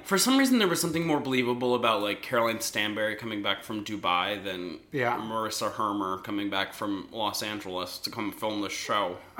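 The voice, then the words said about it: Mumbling imitation of another woman. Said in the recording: “that was a pretty good impersonation of her, actually... she's like a little mumble mouth”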